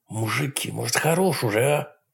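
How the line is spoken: Hissed. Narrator (Russian): прошипел Эйб

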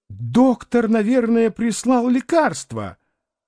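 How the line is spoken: Sobbing, then exclaiming. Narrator (Russian): Тут она зарыдала, но вдруг воскликнула

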